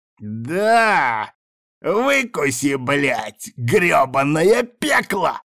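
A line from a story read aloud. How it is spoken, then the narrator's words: Joyful yelling, laughing. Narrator (Russian): Радостно орал Тибальд и ржал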